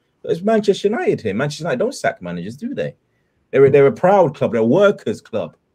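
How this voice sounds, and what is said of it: Imitates another person's voice. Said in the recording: “my Gary Neville impression ... you get it spot on”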